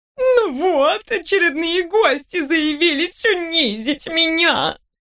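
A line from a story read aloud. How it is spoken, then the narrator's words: Moaning. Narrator (Russian): Простонала сложенная вдвое простыня с наушниками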